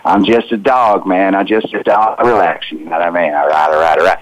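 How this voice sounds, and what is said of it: Laid-back drawling celebrity impression. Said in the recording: “think about that voice ... That's, you know, Matthew McConaughey, just keeping it real ... laid back ... doing a voice”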